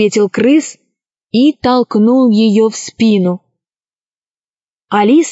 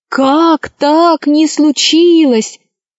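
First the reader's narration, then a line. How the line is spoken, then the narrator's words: Groaning crowd. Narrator (Russian): застонали люди и звери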